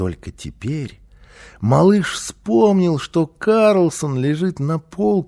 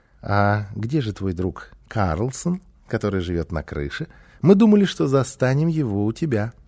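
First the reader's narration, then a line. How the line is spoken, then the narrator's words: Snide, snickering question. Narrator (Russian): Гунилла, ехидно посмеиваясь, спросила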